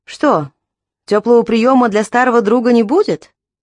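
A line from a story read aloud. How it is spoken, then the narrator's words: Laughing question. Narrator (Russian): Рассмеявшись, поинтересовался Колби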